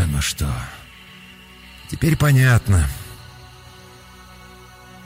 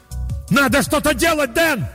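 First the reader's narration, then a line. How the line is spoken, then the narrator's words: Full-voice shout. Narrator (Russian): заорал я во весь голос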